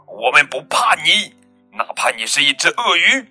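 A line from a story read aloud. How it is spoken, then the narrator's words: Loud fierce roar. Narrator (Chinese): 他们用最响亮、最凶猛的声音吼道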